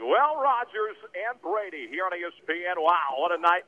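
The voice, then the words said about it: Sports play-by-play announcer voice. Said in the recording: “weird voice. It sounded just like Joe Buck ... just start doing play-by-play”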